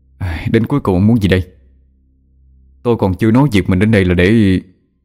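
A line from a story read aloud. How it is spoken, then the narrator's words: Sighing. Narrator (Vietnamese): Thở dài một hơi, cậu nói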